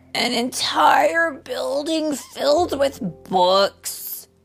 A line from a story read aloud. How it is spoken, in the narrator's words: Isaac groaned